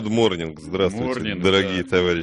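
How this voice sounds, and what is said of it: English greeting in a mock accent. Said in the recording (Russian): “С таким вот акцентом. ... Рязанским, я бы сказал. ... Шотландские протестанты, глаз горы, вот прямо. Вот так вот они и говорят.”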